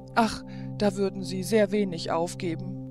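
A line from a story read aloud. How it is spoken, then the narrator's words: Tearful sigh. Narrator (German): seufzte Zoraide mit tränenden Augen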